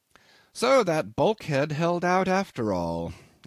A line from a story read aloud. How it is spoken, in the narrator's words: I remarked cheerfully